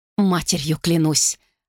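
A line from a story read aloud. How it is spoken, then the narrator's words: Gritted through teeth. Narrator (Russian): процедила та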